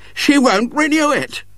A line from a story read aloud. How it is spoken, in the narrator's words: said wildly